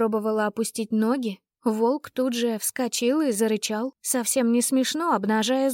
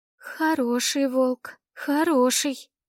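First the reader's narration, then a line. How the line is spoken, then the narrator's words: Trembling, embarrassed voice. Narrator (Russian): произнесла я дрожащим тоном, чувствуя себя абсолютной дурой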